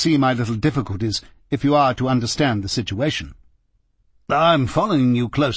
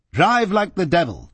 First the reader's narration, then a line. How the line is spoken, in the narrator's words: shouted